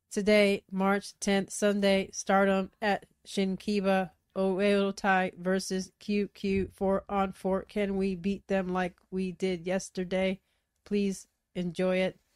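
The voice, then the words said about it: Robotic, Conehead-like voice. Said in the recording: “You make them sound like Coneheads... Robot voice.”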